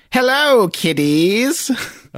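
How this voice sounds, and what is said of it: Crypt Keeper character voice. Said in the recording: “this is a Crypt Keeper reference, so I'll try to do the voice ... Oh, that's pretty good.”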